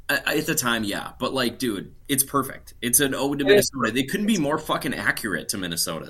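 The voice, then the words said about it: Minnesotan accent. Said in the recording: “I'm literally my accent's coming out and I can't help it”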